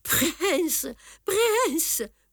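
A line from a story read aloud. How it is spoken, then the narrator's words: Pale, frightened murmur. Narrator (French): murmura Tartarin tout blême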